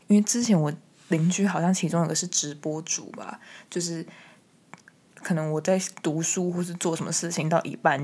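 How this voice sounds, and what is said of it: Quiet, soft-spoken voice. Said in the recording (Chinese): “讲话的声音很小声”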